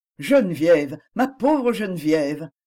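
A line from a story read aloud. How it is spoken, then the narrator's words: Exclaimed. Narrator (French): s'écria M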